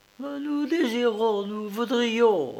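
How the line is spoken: Stammering peasant woman. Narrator (French): balbutia la paysanne

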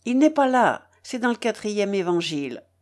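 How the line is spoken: Curt. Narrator (French): fit-elle sèchement

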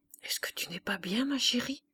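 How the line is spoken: Asked in a low voice. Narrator (French): demanda à mi-voix

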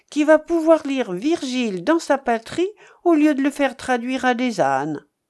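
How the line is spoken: Exclaimed. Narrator (French): s'écria Fréneau

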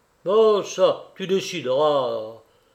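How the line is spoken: Impatient grumble. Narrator (French): grogna André, que l'air rêveur de Cyprien impatientait

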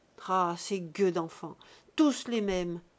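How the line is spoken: Grumbling. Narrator (French): Il grognait

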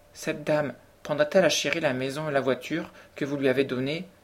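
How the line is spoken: Anxious voice. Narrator (French): demanda enfin Cédric d'une voix anxieuse

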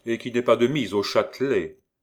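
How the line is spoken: Mocking hidden man. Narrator (French): dit d'un ton goguenard la voix de l'homme caché dans l'ombre

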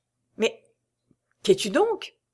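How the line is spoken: Stammered. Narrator (French): balbutia Raoul

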